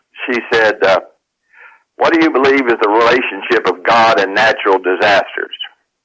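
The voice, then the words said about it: West Virginia accent. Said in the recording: “my West Virginia accent”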